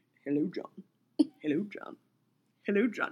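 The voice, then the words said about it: Put-on British accent. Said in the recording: “It sounded very British.”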